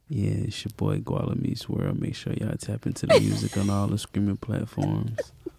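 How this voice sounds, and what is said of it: Put-on sexy voice. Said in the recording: “Put his sexy voice on. ... Put my sexy voice on. Put the sexy voice on.”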